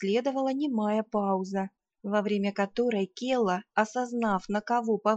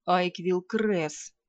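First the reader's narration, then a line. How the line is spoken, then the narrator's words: Quiet and angry, ruler. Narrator (Russian): тихо и зло сказал повелитель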